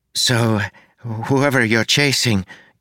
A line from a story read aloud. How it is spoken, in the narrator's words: Kim said, wringing her hands nervously